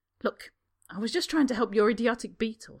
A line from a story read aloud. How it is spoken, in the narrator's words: Harry snaps